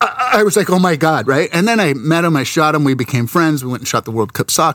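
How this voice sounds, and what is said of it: Usual voice. Nothing is said of it.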